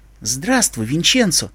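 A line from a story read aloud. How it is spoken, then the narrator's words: Quiet queen. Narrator (Russian): тихо сказала королева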